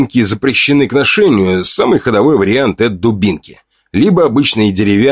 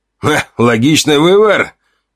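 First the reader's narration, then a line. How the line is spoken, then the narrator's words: Approving snort. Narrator (Russian): Гриша хмыкнул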